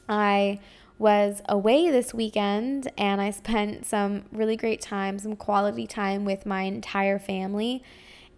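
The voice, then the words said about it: Scratchy, hoarse voice. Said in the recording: “my voice is, you can probably hear it at this point, it's getting very scratchy”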